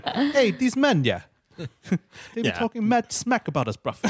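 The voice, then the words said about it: Bad put-on English accent. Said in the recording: “the worst English accents”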